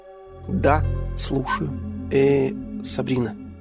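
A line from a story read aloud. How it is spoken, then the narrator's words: Hesitant. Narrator (Russian): неуверенно начал я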